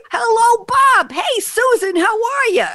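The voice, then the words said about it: Put-on New York accent. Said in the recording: “New York. Okay, I'm a New Yorker. I'm allowed to do that accent.”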